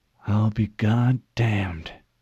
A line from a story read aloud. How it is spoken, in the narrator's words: she muttered